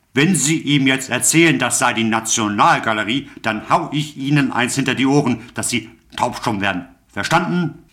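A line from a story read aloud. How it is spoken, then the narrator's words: Bellowed. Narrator (German): brüllte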